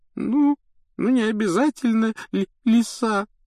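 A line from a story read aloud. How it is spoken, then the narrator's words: Tearful reply. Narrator (Russian): ответила Лаванда, сквозь слезы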